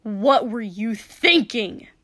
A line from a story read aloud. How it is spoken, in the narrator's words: Kotsky spat in anger